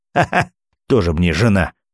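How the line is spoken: Spiteful, spluttering laughter. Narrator (Russian): злобно рассмеялся Кравцов и, брызгая слюной

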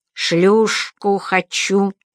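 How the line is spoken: Distinct voice. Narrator (Russian): произнес он отчетливым голосом

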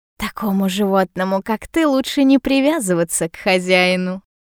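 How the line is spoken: Laughing. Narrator (Russian): Рассмеялась

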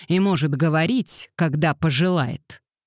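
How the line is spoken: Growl. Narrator (Russian): прорычал он

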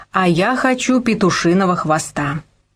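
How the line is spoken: Capricious demanding tone. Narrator (Russian): Ермолай каким-то капризным тоном потребовал

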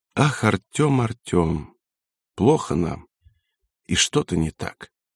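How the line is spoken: Quiet. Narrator (Russian): Варенька тихо сказала

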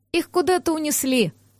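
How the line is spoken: Sighing. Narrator (Russian): вздохнула Сеша

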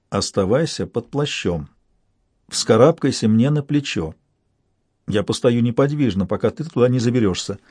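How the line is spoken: Very quiet speech. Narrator (Russian): Я заговорил вслух, очень тихо

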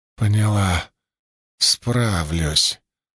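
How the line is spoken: Hoarse, strained voice. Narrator (Russian): охрипшим от натуги голосом ответила

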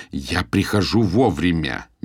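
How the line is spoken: Through gritted teeth. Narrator (Russian): не удержавшись, процедил

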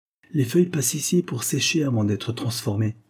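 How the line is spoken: Calm, measured tone. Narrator (French): expliqua Victor d'un ton posé

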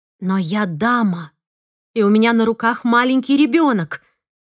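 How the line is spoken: Exclaimed. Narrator (Russian): воскликнула я

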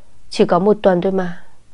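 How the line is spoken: Sighing self-consolation. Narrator (Vietnamese): Sau đó lại thở dài, Kiều An lại tự an ủi bản thân

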